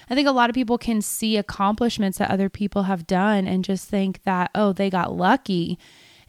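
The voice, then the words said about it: Hoarse, slightly lost voice. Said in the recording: “my voice is actually a little hoarse ... I have lost a little bit of my voice”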